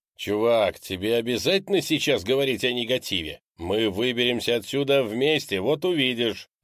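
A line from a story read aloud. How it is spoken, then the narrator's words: Plain. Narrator (Russian): ответил Крис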